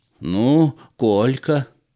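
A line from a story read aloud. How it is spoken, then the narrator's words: Hoarse wheeze. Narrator (Russian): прохрипел он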